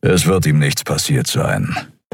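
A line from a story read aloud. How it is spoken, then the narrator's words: Grumbling. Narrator (German): brummte Keru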